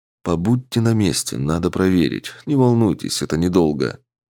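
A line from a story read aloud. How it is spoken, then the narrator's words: Quiet. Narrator (Russian): тихо сказал Александр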